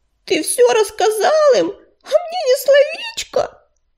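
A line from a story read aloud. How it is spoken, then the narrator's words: Sobbing. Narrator (Russian): всхлипнула она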